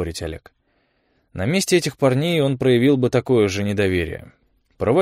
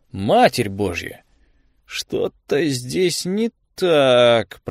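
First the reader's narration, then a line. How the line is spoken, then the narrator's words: Grumbling. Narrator (Russian): проворчал он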